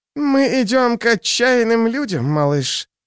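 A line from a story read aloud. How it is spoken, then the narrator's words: Husky, working-class voice. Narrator (Russian): сказала с хрипотцой в голосе, как говорят рабочие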